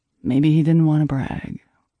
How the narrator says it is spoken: he said dryly

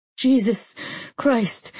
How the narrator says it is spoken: I gasped, every single cell primed to explode

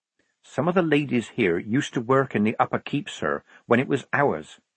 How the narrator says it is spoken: Polly went on quickly

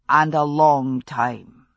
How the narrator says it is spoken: he said

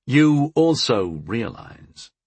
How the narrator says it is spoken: I said slowly

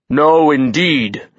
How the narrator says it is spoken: his voice boomed

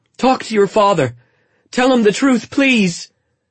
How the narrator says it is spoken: she cried

